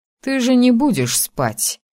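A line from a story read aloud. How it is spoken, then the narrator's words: Snorting. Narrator (Russian): хмыкнул Асгар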